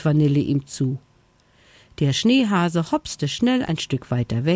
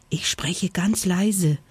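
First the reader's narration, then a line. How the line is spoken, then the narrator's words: Whispered. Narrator (German): flüsterte Vanille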